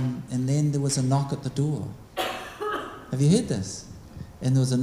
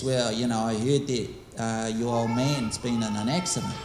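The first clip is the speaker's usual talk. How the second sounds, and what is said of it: Attempted rural accent. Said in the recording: “I'm trying to get that accent going. Bit rural, I admit.”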